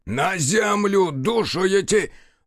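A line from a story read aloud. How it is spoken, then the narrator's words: Frantic unnatural scream. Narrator (Russian): завопил не своим голосом Еремей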